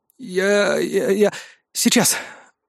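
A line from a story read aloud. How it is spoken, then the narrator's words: Overcoming a stutter. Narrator (Russian): Справившись с заиканием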